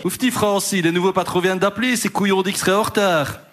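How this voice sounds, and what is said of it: Weak put-on Liège Belgian accent. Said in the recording (French): “je sais pas faire l'accent liégeois ... C'est quoi cet accent de Liège? ... C'est entre Liège et Bruxelles.”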